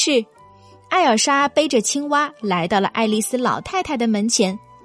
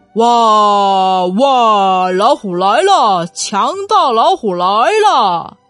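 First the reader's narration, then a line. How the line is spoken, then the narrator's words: Old woman laughing heartily. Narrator (Chinese): 爱丽丝老太太在屋里哈哈大笑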